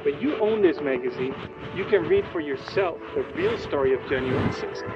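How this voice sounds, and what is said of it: Russian accent. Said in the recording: “Notice he has ... Russian accent.”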